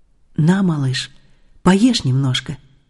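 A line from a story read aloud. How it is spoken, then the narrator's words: Old man, gentle. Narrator (Russian): Старик ласково сказал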